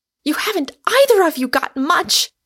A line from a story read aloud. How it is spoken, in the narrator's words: cried Rosamond, the last stays of her formidable temper giving way